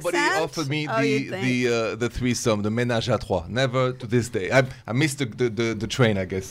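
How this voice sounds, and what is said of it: Speaks with a noticeable accent. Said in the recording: “With that accent?”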